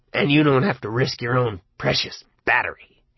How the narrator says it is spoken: he spat

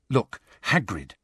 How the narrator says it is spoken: said Hermione urgently

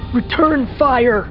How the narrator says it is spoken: he howled toward the cockpit

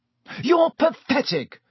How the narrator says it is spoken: Harry yelled

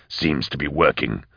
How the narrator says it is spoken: growled Eisenhorn

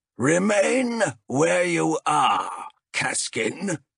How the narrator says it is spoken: bellowed a familiar voice

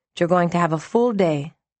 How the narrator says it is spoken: she added dryly

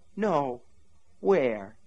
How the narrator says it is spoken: he asked her tenderly

